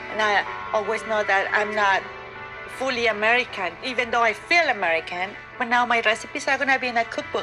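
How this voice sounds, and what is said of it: Non-native English accent. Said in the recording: “I'm an immigrant, okay? English is my second language. ... I have this accent”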